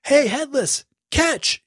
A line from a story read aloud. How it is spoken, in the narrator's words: yelled